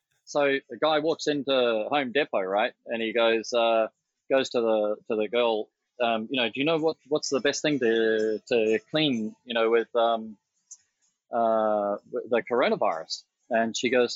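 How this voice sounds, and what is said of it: Speaks with an accent. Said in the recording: “I don't know if it'll work with my accent.”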